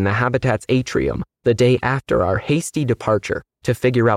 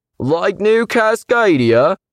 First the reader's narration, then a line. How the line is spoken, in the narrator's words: Someone yelled sarcastically